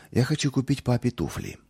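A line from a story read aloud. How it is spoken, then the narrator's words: Timid speech. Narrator (Russian): робко проговорил он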